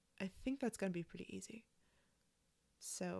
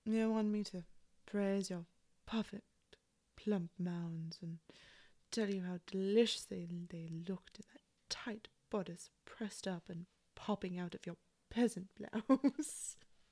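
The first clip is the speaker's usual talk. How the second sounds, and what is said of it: Put-on seductive character accent. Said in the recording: “let me get into character ... Lose the accent.”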